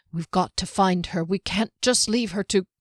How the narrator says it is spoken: Not quite under his breath, he added

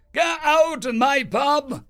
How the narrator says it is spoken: she roared

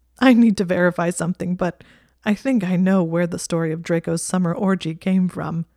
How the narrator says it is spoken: he said, sounding like he was on the verge of laughing again

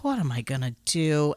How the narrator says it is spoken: She takes a big sigh of relief and says

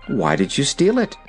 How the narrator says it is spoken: asked Ozma gently

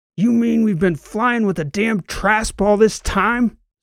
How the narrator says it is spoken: Soch shouted

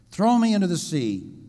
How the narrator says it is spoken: Jonah said

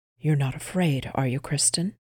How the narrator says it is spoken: Erland asked in a whisper

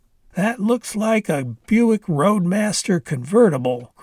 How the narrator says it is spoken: Grandpa said in a happy voice

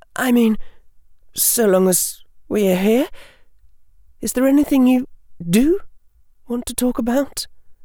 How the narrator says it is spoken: said falteringly

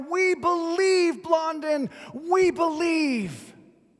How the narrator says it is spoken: the crowd was practically roaring now

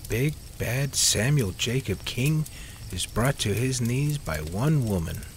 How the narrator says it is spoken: Liz joked hesitantly

